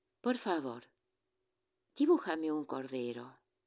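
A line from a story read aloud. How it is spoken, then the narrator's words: Soft, serious repetition. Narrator (Spanish): Repitió, muy suavemente, como si fuese una cosa muy seria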